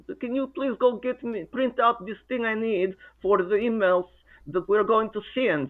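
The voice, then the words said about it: Put-on Russian accent. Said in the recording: “I talked to her with my Russian accent.”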